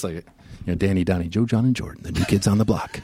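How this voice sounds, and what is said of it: Announcer voice. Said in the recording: “practicing my announcer voice”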